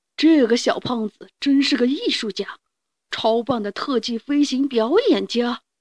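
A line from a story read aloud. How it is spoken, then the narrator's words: Admiring exclamation. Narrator (Chinese): 达芬奇 感叹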